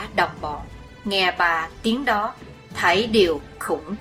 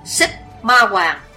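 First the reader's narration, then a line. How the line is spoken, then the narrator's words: Old man's shout. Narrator (Vietnamese): Lão đạo nhân râu dài bọc quát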